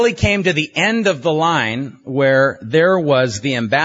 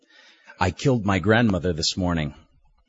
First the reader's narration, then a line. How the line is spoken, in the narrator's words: mumbled